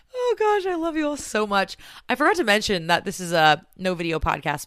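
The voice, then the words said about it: Raspy voice. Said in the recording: “the sweet raspiness of my voice. I've heard it's raspy ... it's just been my voice”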